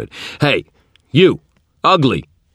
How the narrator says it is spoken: shouted

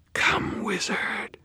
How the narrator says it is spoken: Mavra whispered, her face utterly without expression

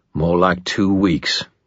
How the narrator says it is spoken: Ebenezer grunted with assurance

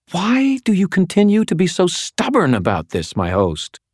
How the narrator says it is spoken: Lashiel demanded, her voice tight with frustration

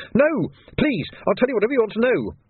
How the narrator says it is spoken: the man yelled

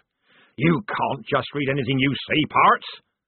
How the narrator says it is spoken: he shouted

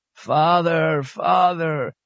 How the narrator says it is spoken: the officer moaned

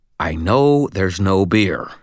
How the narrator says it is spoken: growled

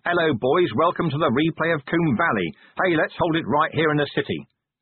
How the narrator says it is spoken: I go out there with a megaphone and shout

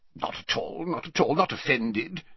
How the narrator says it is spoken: said Slughorn gruffly

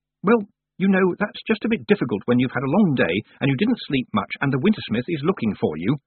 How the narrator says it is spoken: snapped Tiffany

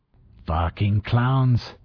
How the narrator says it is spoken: Ortega growled

